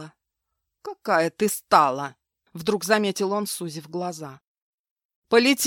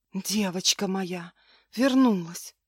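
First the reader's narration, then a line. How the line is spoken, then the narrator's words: Whispered. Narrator (Russian): шепнула она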